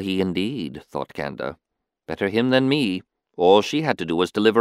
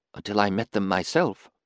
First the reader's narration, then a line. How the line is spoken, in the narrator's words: she whispered into the gloom